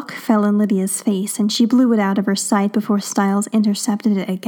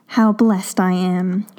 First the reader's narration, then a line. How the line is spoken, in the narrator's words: she said dryly